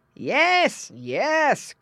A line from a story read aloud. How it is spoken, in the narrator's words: cried the farmer, as though he were talking to the pigs